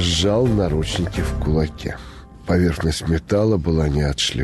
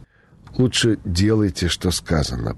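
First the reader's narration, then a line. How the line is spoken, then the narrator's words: Unsure, plaintive threat. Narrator (Russian): пригрозил юный водитель неуверенно жалобным голосом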